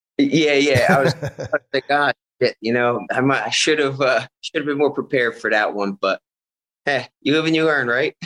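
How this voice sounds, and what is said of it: Philadelphia accent. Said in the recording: “I hear like a Philly accent.”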